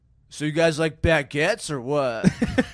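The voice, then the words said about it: French guy doing American accent. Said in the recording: “my impression of a French guy with a really good American accent ... French guy, really good American accent at a party”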